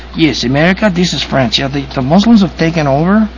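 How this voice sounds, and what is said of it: Put-on French voice slipping Spanish. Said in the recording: “I keep going to my Spanish accent.”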